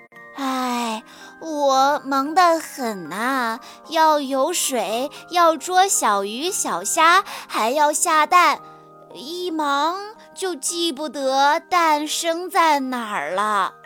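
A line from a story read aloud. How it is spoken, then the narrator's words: Sighing. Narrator (Chinese): 鸭妈妈叹了口气说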